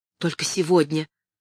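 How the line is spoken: Whispered. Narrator (Russian): прошептала Кэтрин

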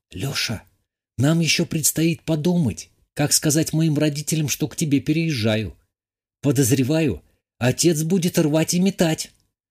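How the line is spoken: Whisper. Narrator (Russian): прошептала

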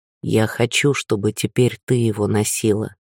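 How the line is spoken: Quiet. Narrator (Russian): тихо произнес он

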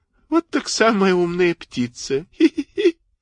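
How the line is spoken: Thin little voice, giggling. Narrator (Russian): послышалось хихиканье, и тоненький голосок сказал

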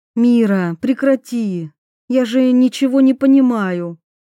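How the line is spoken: Pleading. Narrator (Russian): взмолилась

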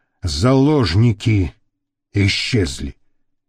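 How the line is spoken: Unexpectedly calm. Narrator (Russian): неожиданно спокойно объяснил он

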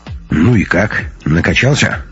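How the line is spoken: Plain. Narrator (Russian): спросил Макакин-Мартышкин

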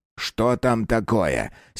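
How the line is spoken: Angry question. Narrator (Russian): сердито спросил Фергюс

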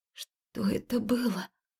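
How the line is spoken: Hoarse, emotional question. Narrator (Russian): хрипло севшим от наклынувших эмоций голосом спросила

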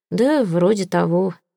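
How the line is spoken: Sighing. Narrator (Russian): вздохнул он

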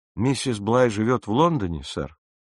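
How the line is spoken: Respectful inquiry. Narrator (Russian): Почтительным тоном осведомился я

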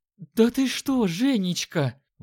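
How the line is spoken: Woman exclaiming. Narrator (Russian): воскликнула женщина

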